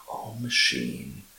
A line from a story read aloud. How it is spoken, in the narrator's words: half ashamed, half joyful, she murmured